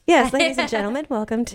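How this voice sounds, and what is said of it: Flight attendant announcement voice. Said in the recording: “She put on her flight attendant voice.”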